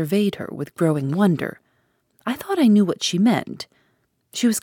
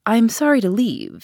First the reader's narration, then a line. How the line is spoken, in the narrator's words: said I